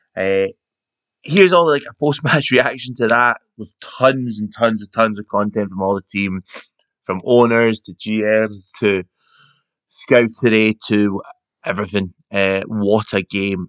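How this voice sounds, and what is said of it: Hoarse, worn-out voice. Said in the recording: “You'll probably hear from my voice, it's a little bit gone.”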